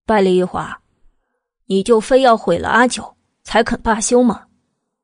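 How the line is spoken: Laughing. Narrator (Chinese): 百里玉华 笑起来

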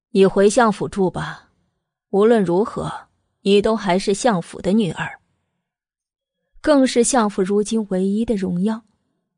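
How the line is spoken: Deep, grave voice. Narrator (Chinese): 慕容正打破了平静，沉声道

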